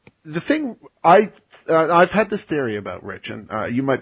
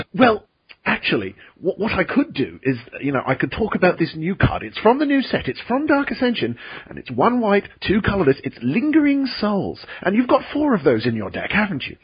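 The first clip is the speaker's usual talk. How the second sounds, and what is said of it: British-sounding imitation of another person. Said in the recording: “not just because of the whole British thing. I do a really good Rich Hagen impression ... Okay, that wasn't bad. I mean, it wasn't great, and it was completely unprompted, but it was pretty good.”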